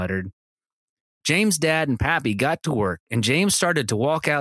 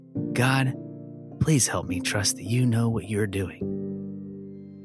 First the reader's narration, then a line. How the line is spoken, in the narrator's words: In a hushed voice, James said